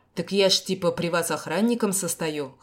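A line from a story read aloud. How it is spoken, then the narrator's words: Snorting. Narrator (Russian): хмыкнул парень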